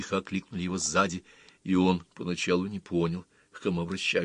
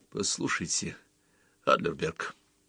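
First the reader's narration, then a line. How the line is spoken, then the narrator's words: Quiet. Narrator (Russian): сказал он тоже тихо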